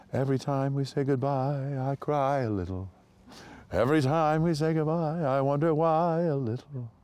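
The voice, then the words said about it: Imitates another person's voice, singing. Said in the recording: “my Ellis Rabb impression”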